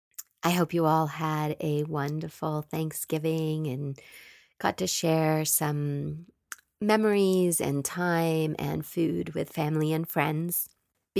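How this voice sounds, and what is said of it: Stuffy congested voice. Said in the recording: “I apologize for my voice. I have a little cold, so sound a little stuffy.”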